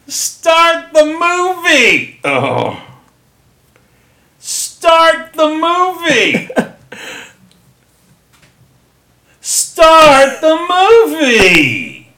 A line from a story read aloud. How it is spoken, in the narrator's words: They are shouting down the coast guy, yelling